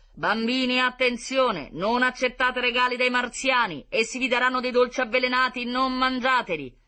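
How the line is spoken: Booming loudspeaker. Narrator (Italian): L'altoparlante di Diomede tuonava

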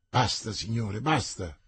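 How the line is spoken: Grumbling mutter. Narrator (Italian): borbottò il cardinale

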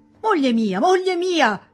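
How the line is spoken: Shouting. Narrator (Italian): gridò Charles

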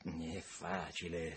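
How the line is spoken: Whispered. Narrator (Italian): sussurrò Tom

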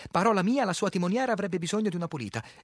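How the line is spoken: Livelier tone. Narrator (Italian): in tono più vivace

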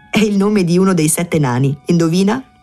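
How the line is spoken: Laughing woman. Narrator (Italian): La donna rise e disse

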